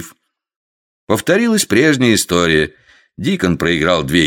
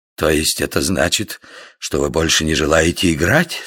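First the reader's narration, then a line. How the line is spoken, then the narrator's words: Hoarse question. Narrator (Russian): спросил Дикон хриплым голосом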